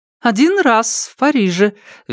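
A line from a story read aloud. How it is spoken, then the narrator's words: Cheerful reply. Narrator (Russian): весело отвечала та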